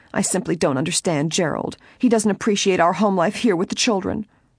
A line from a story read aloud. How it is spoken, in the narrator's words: She added somewhat angrily